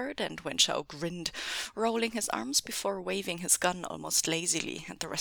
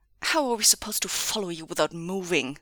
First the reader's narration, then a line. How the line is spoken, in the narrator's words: Wei Wuxian spat